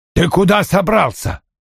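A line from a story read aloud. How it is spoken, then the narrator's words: Barked. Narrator (Russian): рявкнул Вульф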